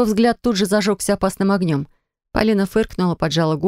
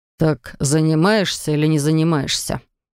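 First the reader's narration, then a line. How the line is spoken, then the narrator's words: Stern words through teeth. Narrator (Russian): Процедил строго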